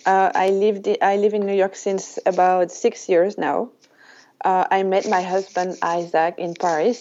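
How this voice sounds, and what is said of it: French-accented English. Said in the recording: “I could listen to your French accent for hours ... as you can hear, I am French”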